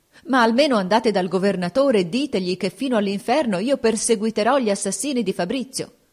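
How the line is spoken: Desperate anxious cry. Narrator (Italian): La duchessa, con ansia disperata, gli gridò

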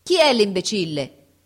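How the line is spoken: Full-lunged shout. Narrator (Italian): gridò con tutta la forza dei suoi polmoni

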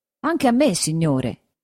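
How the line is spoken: Plain. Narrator (Italian): disse il griso

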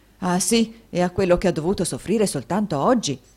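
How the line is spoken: Many voices shouting. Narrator (Italian): gridarono molte voci

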